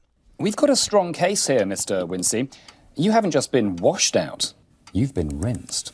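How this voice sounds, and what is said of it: Slight British accent. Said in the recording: “sounds a little British”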